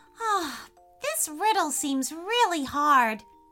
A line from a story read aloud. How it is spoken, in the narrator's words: sighed Freya